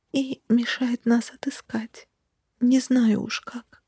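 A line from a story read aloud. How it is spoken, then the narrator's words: Whisper. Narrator (Russian): прошептала Тари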